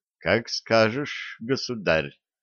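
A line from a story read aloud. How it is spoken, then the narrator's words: Muttered. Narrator (Russian): пробормотала Василиса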